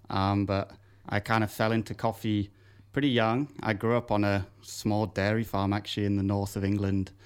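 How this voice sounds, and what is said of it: British English accent. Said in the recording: “as we can tell by your accent, you're not from here ... I'm from the UK originally”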